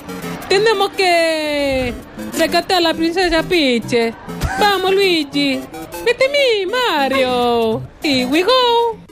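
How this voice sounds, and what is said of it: Mario character voice, not convincingly Italian. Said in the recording (Catalan): “no era italià. ... És Leo Messi borratxo.”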